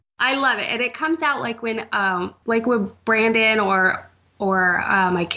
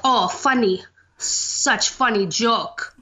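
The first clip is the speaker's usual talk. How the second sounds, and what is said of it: Put-on Russian accent. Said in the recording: “my internal dialogue is in a Russian accent ... not Russian, but with an accent”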